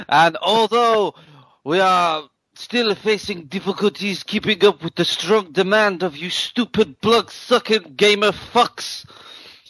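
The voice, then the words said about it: Put-on French accent. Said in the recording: “you've got to do the accent, man... I think we'll have French. Wow, French.”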